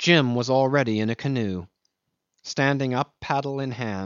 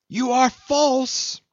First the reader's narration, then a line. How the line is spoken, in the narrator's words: she screamed after Jim